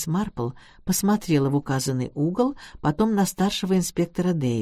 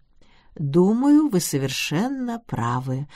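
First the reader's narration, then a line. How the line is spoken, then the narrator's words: Plain. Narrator (Russian): ответила она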